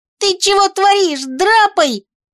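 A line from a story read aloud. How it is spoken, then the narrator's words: Panicked squeal. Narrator (Russian): панически взвизгнул хомяк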